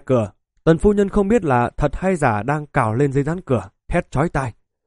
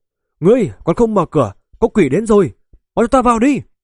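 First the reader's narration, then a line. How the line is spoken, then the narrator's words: Sudden loud scream. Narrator (Vietnamese): Bất thình lình, cô gái kia cao giọng thét lên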